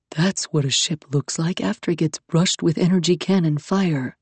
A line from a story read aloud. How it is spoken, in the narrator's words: Iskander murmured to her, horrified and fascinated, as horrified and fascinated as she felt herself